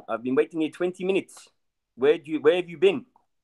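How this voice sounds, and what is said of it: Imitated South African accent. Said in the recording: “this South African guy ... in his accent”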